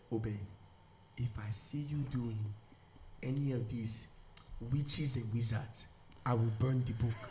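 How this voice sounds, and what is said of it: Imitated Nigerian mother's accent. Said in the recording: “My mom's like... Nigerian. ... I'm going to just do my mom's accent real quick.”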